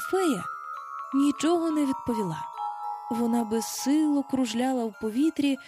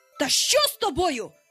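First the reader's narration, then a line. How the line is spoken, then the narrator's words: Frightened shout. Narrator (Ukrainian): закричав Пітер уже перелякано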